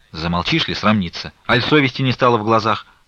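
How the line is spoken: Grumbling. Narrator (Russian): ворчала Назарета

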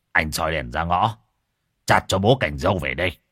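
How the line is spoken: Exasperated shout. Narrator (Vietnamese): Không chịu được nữa, ông quát con

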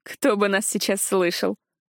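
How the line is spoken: Laughing female demon. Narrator (Russian): рассмеялась демоница

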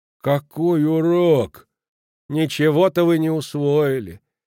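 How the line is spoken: Sad. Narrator (Russian): Печально продолжила госпожа Халич

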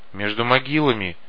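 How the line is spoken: Muttering from behind. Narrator (Russian): бормотал сзади Кварк

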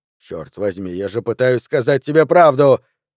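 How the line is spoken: Angry bark. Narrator (Russian): рявкнул на нее Джо

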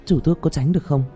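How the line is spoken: Frightened. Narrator (Vietnamese): Tạ Vũ Tình sợ hãi nói

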